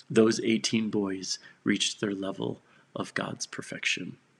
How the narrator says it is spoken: said the father softly, with tears now rolling down his face

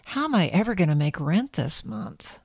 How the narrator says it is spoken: Holly sighed and muttered to herself

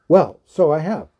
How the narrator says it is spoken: cried Bilbo

